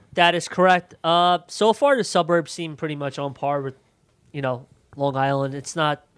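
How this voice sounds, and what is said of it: Congested, nasal voice. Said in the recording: “My throat's closing up, my nose, nasal. ... I sound like Schinkelstein right now from Brooklyn.”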